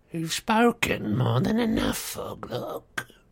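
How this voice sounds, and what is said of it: Sneering evil character voice. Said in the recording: “sneered the evil voice”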